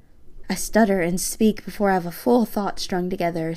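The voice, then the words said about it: Low-pitched female voice. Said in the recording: “My voice is really kind of low for a girl. It's not the most pleasant to listen to.”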